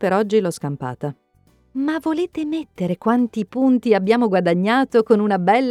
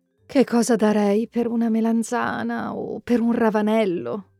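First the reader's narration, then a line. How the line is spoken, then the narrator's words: Sighing. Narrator (Italian): sospira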